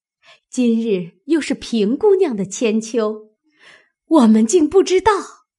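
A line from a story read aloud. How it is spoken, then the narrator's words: Laughing. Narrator (Chinese): 柳家的笑道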